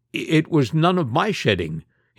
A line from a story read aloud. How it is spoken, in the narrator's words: stammered